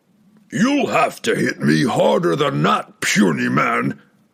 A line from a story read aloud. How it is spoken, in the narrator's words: bellowed